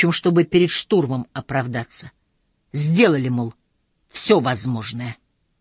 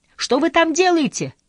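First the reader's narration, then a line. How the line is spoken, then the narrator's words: Shout from below. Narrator (Russian): крикнул снизу Красномордый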